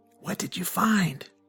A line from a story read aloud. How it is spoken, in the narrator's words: whispered